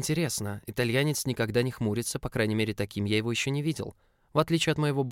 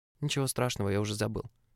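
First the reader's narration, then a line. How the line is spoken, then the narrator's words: Grumbling. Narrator (Russian): буркнул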